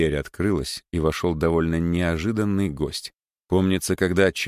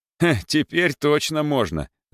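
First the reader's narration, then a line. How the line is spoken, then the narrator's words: Laughing. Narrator (Russian): засмеялся коллега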